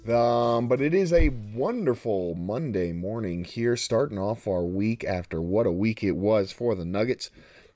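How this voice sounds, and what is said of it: Hoarse, strained voice. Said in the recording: “it is uh, obviously getting cold out here in uh, in, in Denver because I'm uh, starting to lose my voice.”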